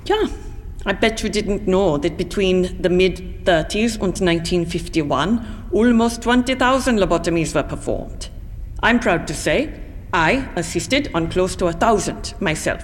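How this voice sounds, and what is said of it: German accent. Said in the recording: “Here? Or back in Germany, ma'am? Your accent”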